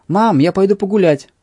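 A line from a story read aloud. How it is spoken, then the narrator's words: Loud shout through house. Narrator (Russian): крикнув на весь дом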